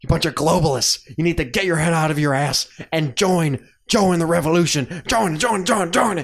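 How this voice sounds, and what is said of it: Imitates another person's voice. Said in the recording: “how bad my Alex Jones or good my Alex Jones impersonation is”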